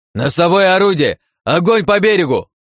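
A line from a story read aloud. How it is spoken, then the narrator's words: Yelling. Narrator (Russian): заорал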